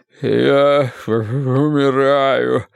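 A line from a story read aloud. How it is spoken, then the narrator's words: Moaning. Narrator (Russian): стонал Уве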